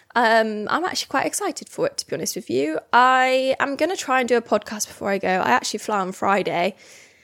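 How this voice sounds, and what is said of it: Slightly out of breath. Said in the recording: “I'm a bit out of breath from talking so much.”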